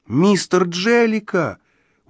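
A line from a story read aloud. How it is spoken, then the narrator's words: Exclaimed. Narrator (Russian): успел воскликнуть я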